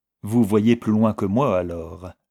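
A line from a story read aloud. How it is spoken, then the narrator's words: Cold reply. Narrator (French): répondit Vixen froidement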